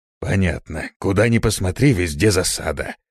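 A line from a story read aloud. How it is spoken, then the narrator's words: Grumbled. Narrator (Russian): проворчал он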